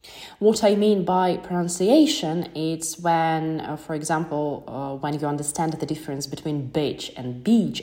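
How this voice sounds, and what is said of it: Non-native English accent. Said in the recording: “I wasn't born in England, so yeah, of course I will have my accent,”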